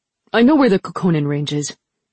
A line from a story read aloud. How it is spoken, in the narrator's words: Kitai said impatiently